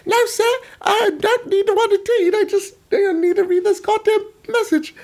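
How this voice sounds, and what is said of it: Put-on accent for a messenger. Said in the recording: “I can't stick with the accent. I feel like it's offensive.”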